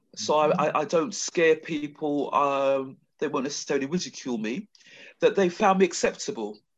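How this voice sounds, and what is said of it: London accent, Queen's English. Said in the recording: “doesn't have IJ's accent or any other accent. ... I'm clearly a Londoner, and I speak the Queen's English.”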